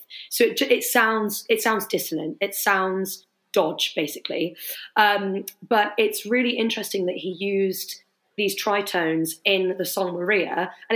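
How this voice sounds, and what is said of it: Voice sounds a little unwell. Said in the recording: “excuse my voice, a little bit poorly at the moment.”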